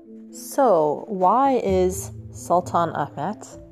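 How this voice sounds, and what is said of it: Slow, oddly drawn-out pronunciation. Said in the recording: “saying it slowly, I'm saying it weird.”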